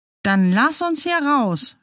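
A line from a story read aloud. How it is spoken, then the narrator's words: Shouted back. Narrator (German): schrie Lina zurück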